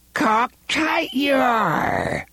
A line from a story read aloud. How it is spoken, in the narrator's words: Rhea cried